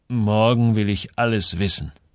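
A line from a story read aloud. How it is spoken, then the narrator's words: Plain. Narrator (German): sagte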